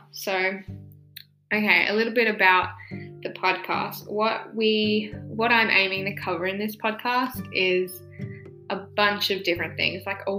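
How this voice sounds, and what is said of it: Out of breath speaking. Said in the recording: “me being out of breath the whole time ... I can already hear myself being out of breath”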